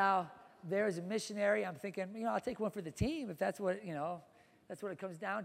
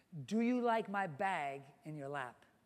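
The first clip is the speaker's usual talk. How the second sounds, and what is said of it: Speaks with a different accent. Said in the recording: “with a, you know, a different accent”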